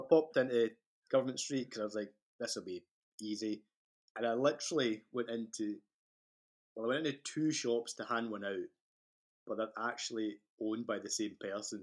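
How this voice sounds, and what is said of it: Scottish accent. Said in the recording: “heard my accent obviously, and he was like, oh, are you Irish? And I'm like, ah, no, I'm Scottish.”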